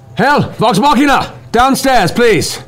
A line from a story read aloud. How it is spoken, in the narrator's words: you hear a guard's voice shout